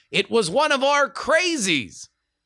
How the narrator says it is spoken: yelling

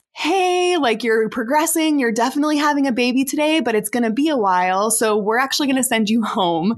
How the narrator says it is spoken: my midwife really sweetly says

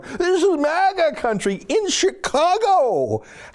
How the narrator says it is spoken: they'd shout

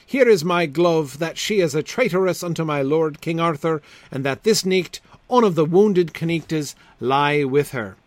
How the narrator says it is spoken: sighed Sir Meleagant

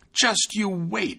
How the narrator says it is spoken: exclaimed

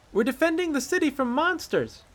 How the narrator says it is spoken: Mila shouted

